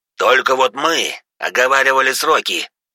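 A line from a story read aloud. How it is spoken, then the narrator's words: Near growl, beastly man. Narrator (Russian): едва не рычал глава ЧВК-зверь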